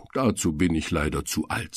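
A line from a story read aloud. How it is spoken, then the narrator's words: Plain. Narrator (German): sagt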